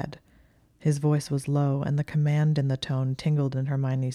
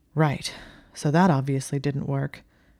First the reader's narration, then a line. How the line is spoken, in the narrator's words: Malfoy said as they stared at each other, panting